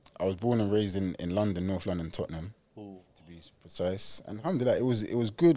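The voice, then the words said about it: Slight English accent. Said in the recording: “you've got a bit of an English accent”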